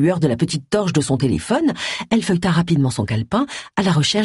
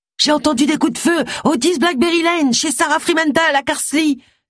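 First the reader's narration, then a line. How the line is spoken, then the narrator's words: Shouting in disguised voice. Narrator (French): cria-t-elle en déguisant sa voix du mieux qu'elle put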